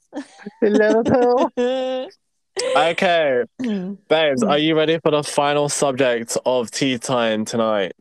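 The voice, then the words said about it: Soft Southern American accent. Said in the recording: “down south, southerner ... sound southern, like a little southern, like a soft southern accent”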